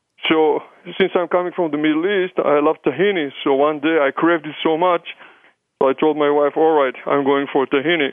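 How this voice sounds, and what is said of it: Israeli accent, German-Hebrew mix. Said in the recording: “my accent, where is this funny accent is coming. So it's a combination of German and English and Hebrew and maybe Yiddish”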